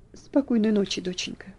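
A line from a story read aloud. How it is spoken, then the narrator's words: Quiet, gentle. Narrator (Russian): Он тихо сказал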